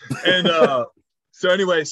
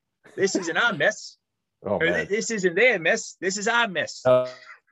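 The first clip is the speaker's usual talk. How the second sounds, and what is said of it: Put-on accent in quoted speech. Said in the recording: “Stop the accent. ... Stop the accent, please.”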